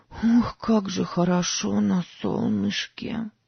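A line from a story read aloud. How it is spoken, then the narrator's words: Hoarse. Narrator (Russian): сказала Сара хрипло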